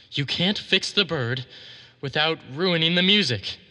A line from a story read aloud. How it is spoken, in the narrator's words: he whimpered